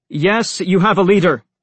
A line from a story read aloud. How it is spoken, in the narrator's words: he shouted